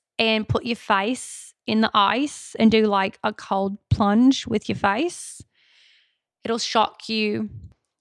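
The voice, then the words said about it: Put-on Australian accent. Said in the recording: “that's about enough of the Australian accent for one episode, but it's pretty good.”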